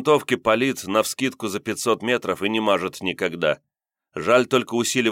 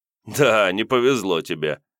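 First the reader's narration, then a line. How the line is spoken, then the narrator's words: Hunter's short laugh. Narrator (Russian): хохотнул охотник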